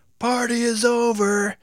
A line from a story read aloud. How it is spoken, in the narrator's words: shouted